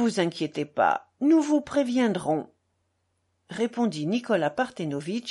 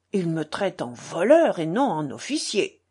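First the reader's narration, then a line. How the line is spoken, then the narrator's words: Muttered to himself. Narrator (French): grommela-t-il à part lui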